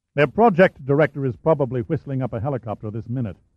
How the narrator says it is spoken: Shaw replied

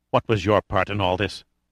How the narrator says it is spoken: his face twisted in bitterness, and he asked in a vicious undertone

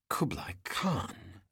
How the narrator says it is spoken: Summer whispered in reverence

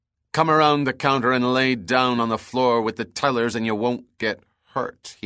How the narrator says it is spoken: said in a cold tone

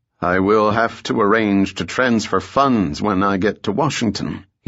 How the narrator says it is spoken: he said stiffly

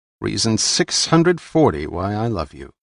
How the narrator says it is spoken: he replied

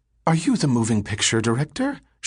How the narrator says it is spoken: She asked breathlessly

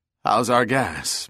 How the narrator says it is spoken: Bell asked in a rasping voice, his mouth coated with dust

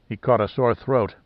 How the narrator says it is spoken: muttered Pitt

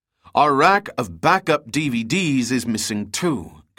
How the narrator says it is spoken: Gunn cried

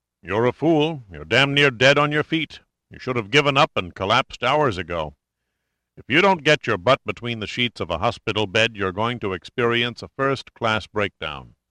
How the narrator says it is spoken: The doctor had said sternly

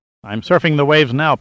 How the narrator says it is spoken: Pitt snapped back

